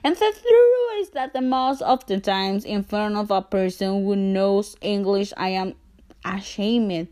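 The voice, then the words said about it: Non-native English accent. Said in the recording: “my accent, and my accent made me feel so insecure ... if English is your first languages”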